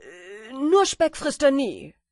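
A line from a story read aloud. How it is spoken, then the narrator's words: Hasty shout while running. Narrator (German): Der Wanderer rannte, was das Zeug hielt, und rief hastig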